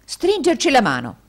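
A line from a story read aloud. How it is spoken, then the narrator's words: Jovial exclamation. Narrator (Italian): esclamò il gioviale indigeno degli Yorkshire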